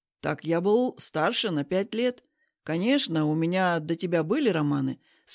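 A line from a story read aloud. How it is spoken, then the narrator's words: Calm answer. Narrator (Russian): спокойно отвечает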